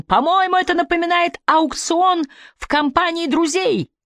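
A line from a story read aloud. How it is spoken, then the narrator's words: Pleased shout. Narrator (Russian): прокричал с довольным видом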